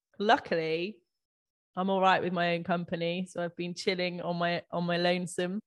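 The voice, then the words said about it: Unwell-sounding voice. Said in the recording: “I think you can probably still tell by my voice, I'm still kind of getting there.”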